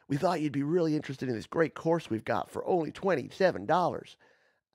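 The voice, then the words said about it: Put-on American accent. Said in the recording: “I always use an American accent because it's usually Americans.”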